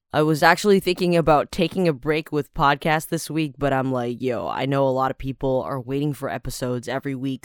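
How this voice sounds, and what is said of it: Strained, rough-sounding voice. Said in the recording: “forgive me if my voice sounds a little bit crappy because I've been doing children's theater for two straight days. That's a lot of shouting and screaming involved ... I'm recording this first thing in the morning, so it's not going to sound good”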